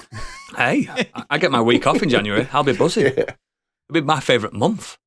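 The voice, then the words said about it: Rough, worn-out voice. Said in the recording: “Oodles is hanging again. ... my voice just sounds like this. I'm fucked.”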